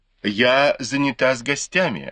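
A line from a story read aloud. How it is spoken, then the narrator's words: Plain. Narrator (Russian): ответила Фэнзе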